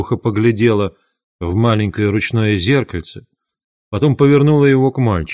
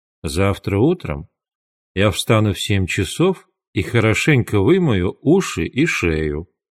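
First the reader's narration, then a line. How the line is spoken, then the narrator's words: Plain. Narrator (Russian): сказала она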